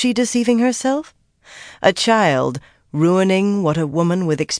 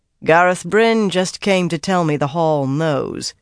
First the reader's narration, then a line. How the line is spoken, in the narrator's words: she said dryly